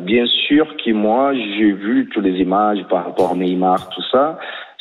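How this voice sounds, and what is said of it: Brazilian accent speaking French. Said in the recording (French): “moi je suis brésilien, hein, 100%, avec l'accent”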